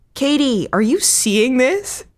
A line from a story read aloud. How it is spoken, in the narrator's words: laughed Melissa